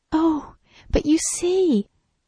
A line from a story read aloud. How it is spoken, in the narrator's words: she cried